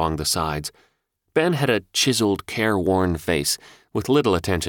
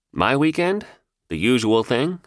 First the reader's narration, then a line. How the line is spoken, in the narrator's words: I said